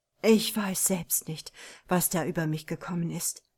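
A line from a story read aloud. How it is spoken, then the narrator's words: Groaning. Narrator (German): stöhnte De Parno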